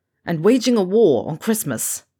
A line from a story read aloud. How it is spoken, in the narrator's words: Ron scoffed